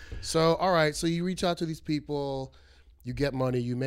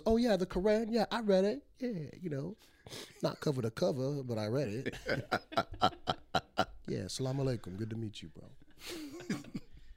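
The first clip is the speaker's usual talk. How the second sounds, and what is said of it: Imitates another person's voice. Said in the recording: “my Denzel impression.”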